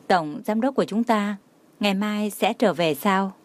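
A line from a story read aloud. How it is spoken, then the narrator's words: Moved, smiling. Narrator (Vietnamese): Đường Khả Hinh trong lòng không hiểu sao xúc động, mỉm cười nói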